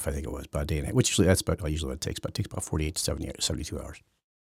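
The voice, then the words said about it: Raspy voice, occasional throat clearing. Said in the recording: “I hope you know can put up with my raspy voice and occasional clearing of my throat”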